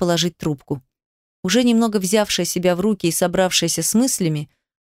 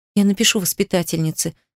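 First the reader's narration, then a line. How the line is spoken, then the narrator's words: Shaky gasping exhale. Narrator (Russian): судорожно выдохнула Дарина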